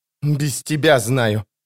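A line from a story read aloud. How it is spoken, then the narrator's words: Through clenched teeth. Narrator (Russian): проговорила она сквозь зубы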